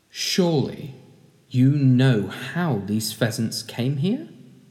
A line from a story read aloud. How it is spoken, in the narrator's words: He said softly